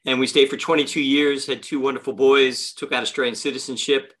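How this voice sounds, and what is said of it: Mixed Australian-American accent. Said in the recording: “I got this really weird accent of where I'm actually an Australian-American”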